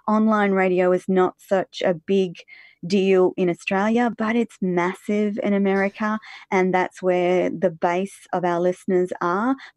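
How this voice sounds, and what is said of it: Calm, smooth radio voice. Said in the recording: “You do have a great voice ... Radio Voice ... It's just really calming.”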